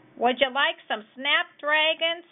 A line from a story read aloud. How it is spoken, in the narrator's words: hollered Ma Loud as she clack-clackety-clacked her gardening clippers